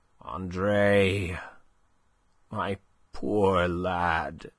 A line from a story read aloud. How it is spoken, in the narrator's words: he murmured